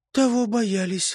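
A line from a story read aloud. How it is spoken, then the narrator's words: Sighed. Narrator (Russian): вздохнула Белянушка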